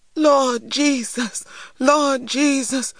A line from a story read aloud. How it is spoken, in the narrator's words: cried Mrs